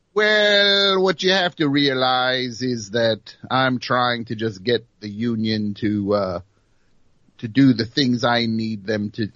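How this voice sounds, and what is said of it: Joe Namath impression, exaggerated L's. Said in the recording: “doing the voice I do for Joe Namath ... he was leaning into the L's”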